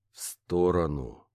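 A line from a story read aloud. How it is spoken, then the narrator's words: Slow. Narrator (Russian): Произношу я медленно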